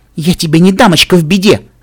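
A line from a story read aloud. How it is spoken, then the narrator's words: Snapped. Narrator (Russian): огрызнулась она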